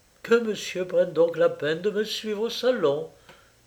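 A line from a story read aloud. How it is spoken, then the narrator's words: Said with heavy sigh. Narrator (French): dit-elle avec un gros soupir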